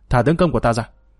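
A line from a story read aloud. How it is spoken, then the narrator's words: Cold loud command. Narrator (Vietnamese): Hàn Đấu Nương lạnh lùng quát lớn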